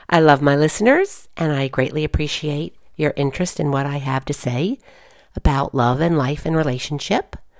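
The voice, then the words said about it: Hoarse voice from a cold. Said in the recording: “I'm sorry about my voice. I'm getting over a bit of a cold”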